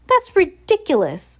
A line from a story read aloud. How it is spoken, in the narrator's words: Violet cried